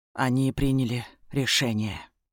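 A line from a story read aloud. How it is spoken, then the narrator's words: Gloomy announcement. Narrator (Russian): мрачно сообщает Ильрит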